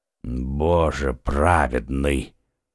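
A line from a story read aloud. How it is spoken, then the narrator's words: Muffled voice from below. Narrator (Russian): глухо прозвучал снизу голос Атоса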